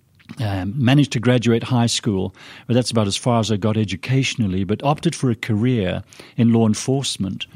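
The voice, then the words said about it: British accent, somewhat mixed. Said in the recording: “I don't have a Scots accent, as most people anticipate. It's more of a British, as my wife says, a little confused accent”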